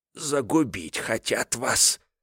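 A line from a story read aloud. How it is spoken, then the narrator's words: Gulping whisper. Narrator (Russian): Громко сглотнув, прошептал Семен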